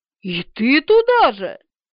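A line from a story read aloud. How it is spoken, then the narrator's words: Exclamation. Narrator (Russian): воскликнула тетя Муся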